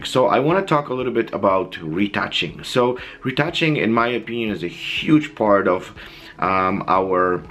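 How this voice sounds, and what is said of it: Voice sounds sick, not normal. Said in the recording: “I've been a little bit sick, so you guys probably hear uh, my voice is not the same”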